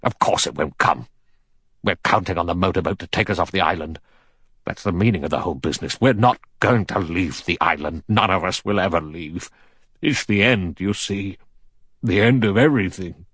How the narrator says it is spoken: General MacArthur said sharply

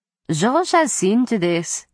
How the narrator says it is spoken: Isabeau said in a bored tone

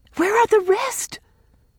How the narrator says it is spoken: gasped Rilla

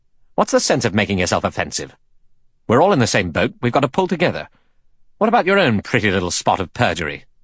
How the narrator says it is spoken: Philip Lombard said quickly and angrily to Blore

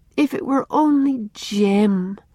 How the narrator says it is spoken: she sighed to Una

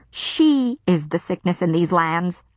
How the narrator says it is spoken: Alice snapped

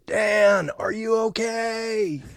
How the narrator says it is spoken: he yells

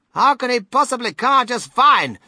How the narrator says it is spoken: snapped Mrs

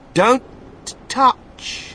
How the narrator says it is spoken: shouted Mr

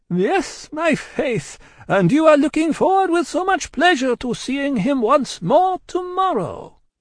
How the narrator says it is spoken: The amiable Vengeance added with a laugh

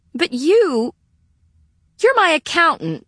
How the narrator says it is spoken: Sarah sputtered

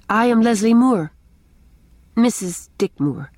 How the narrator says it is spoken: she added stiffly

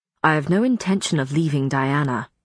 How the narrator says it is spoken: Matthew said icily

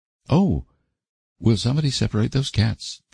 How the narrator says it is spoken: pleaded Stella, shudderingly

